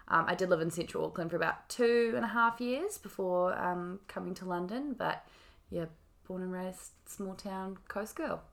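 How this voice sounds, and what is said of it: New Zealand accent. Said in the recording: “They'll probably tell by your accent ... I'm from Whangaparaoa, New Zealand”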